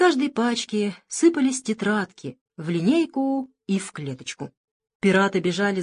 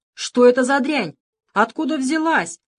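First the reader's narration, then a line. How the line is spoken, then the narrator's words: Indignant yelling. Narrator (Russian): орал возмущенный Плинтус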